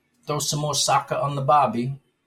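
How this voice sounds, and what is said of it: Bad put-on Australian accent. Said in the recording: “that's such a terrible Australian accent”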